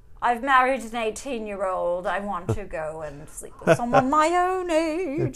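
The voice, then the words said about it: Poor put-on English accent. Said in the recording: “I'm sorry about the English accent. I'm not English. I shouldn't even try.”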